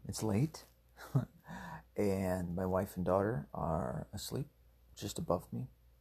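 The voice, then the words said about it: Whispering. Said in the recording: “if it seems like I'm whispering, that's because I am”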